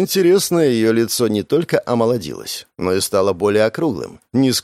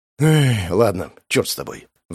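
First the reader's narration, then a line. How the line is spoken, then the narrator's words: Sighing. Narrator (Russian): Вздохнул я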